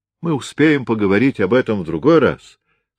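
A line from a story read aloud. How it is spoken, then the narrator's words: Loud. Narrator (Russian): сказал он громко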